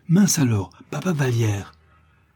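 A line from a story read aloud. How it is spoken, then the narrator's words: Cried out. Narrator (French): s'écria Réglisse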